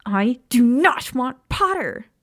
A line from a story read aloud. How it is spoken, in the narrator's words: Lily screeched loudly